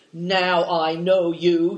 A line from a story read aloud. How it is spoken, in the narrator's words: he snarls